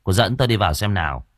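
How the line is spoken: Annoyed. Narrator (Vietnamese): Cậu bực bội nói với cô Trâm

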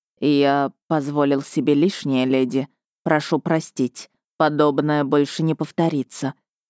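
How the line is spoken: Quiet, gloomy with a snort. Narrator (Russian): Лицо его потемнело, хмыкнул и тихо сказал

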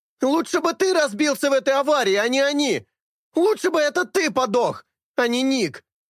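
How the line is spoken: Continued screaming. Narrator (Russian): он продолжает вопить

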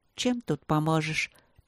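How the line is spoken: Grimacing mutter. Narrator (Russian): пробормотала она, кривя губы

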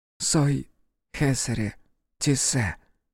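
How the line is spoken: Soft whisper. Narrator (Russian): тихонько прошептала Ер

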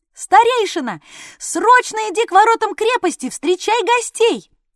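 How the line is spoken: Boy yelling. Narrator (Russian): вопил отрок

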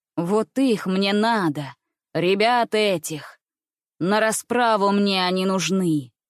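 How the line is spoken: Rough menacing shout. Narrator (Russian): грубо крикнул зуб

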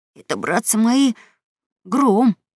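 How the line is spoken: Frightened announcement. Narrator (Russian): испуганно объявил Гекельберри

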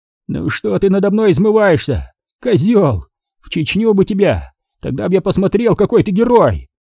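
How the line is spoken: Breathless wheezing. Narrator (Russian): Задыхаясь, захрипел Олег

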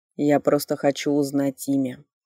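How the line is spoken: Heavy sigh. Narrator (Russian): тяжело вздохнув, сказал он

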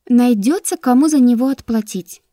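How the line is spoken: Honeyed sing-song. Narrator (Russian): медовым голоском пропела Таяна

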